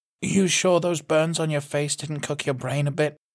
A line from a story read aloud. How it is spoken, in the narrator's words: June asked dryly